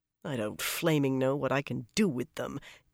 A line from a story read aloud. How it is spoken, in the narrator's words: Birgitta grumbled